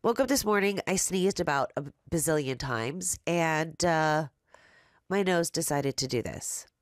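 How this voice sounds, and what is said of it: Raspy, nasal congested voice. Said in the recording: “your girl, is still a little raspy, but I'm a little bit more nasally today ... I might sound weird”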